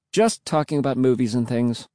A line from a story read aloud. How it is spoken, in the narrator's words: I replied quickly